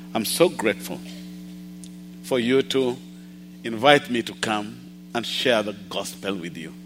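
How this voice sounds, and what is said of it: A slightly unusual accent. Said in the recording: “my accent is a little weird”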